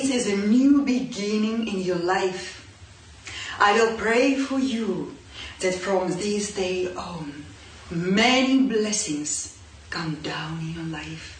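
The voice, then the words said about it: Distinctive accent, precise voice. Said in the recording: “That accent reminds me, like, if you wanted to cast someone to be like a gypsy fortune teller ... That's a precise voice.”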